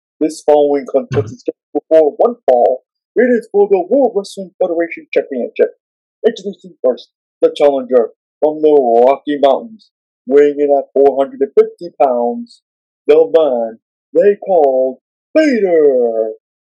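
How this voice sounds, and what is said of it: Impression of ring announcer Howard. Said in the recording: “I can do your voice, Howard.”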